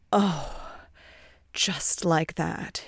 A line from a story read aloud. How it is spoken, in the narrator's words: he sighs